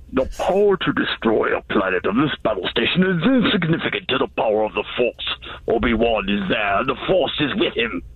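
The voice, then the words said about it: Emperor Palpatine impression. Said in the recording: “Your Star Wars impression? ... That's Emperor Palpatine, right?”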